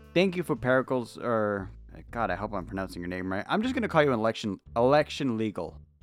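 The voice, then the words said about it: Spanish accent. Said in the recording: “my Spanish accent's really coming through in this one”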